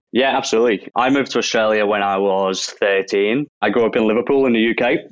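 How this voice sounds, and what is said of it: Non-Australian accent. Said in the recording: “you weren't born in Australia by that accent”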